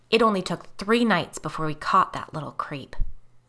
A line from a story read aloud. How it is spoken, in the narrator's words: Michaela growled